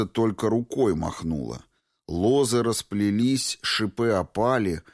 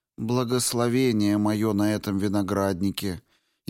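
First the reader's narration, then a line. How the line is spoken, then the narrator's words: Clear spirit voice. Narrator (Russian): Ясным голосом произнес дух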